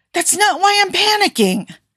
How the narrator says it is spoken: Tony snapped

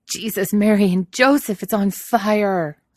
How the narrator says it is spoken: Donald howls

